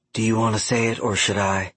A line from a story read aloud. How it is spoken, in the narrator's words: she whispered through a smile